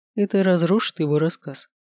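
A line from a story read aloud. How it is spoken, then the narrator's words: Calm. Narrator (Russian): спокойно говорит он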